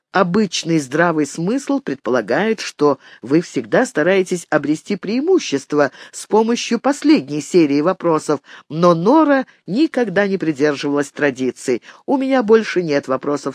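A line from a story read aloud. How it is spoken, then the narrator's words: Plain. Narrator (Russian): сказала она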